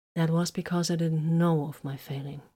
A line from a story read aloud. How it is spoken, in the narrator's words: Vox said softly